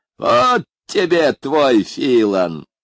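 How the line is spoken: Mocking exclamation. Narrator (Russian): насмешливо воскликнул он

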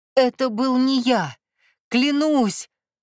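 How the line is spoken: Pleading through bloody mouth. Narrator (Russian): Пуская кровавые пузыри, взмолился теневой с разбитым лицом

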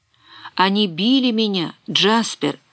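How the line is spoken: Muffled sobbing. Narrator (Russian): сквозь глухие рыдания всхлипывал он

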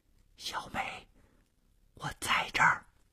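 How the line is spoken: Soft answer. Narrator (Chinese): 黑暗中传出了同样轻声的回答

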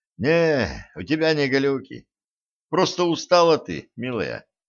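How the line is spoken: Heavy sigh. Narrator (Russian): тяжко вздохнул стажер

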